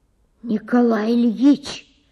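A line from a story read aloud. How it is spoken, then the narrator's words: Loud whisper. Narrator (Russian): громко прошептал он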